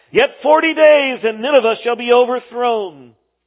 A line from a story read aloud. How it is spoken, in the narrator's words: Jonah he called out